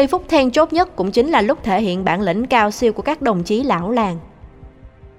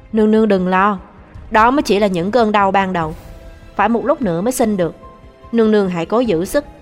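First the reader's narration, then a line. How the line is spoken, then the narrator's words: Calm, steady voice. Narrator (Vietnamese): Một lát sau mới nói bằng giọng trầm tĩnh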